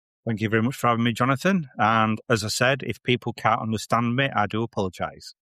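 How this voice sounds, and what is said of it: Thick Yorkshire accent. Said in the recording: “he's from Yorkshire and he's got a very thick Yorkshire accent”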